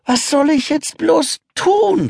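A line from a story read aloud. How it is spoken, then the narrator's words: Sighing. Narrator (German): seufzt Kalle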